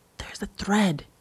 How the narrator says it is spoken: whispered, as quiet as I could

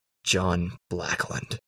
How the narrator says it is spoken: I rasp

